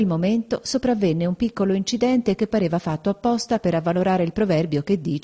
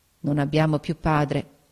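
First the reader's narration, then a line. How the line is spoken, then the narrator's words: Murmuring. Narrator (Italian): mormorò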